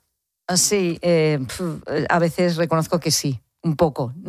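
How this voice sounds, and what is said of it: Usual voice. Nothing is said of it.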